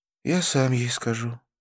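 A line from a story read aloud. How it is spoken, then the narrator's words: Said sadly. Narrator (Russian): печально произнес Навин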